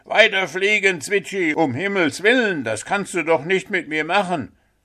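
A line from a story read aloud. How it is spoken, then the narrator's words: Frantic screaming. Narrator (German): Puh schrie völlig außer sich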